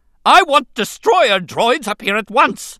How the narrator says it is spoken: Newt Gunray screamed

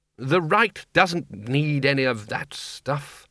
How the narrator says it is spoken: said Ridcully sharply

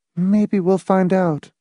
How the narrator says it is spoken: Marcia said faintly

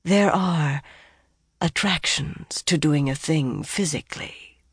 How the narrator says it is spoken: the woman breathed

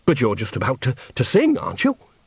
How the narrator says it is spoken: said Bucket

